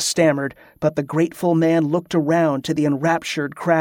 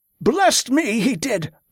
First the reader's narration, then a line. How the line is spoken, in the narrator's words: Oswald shouted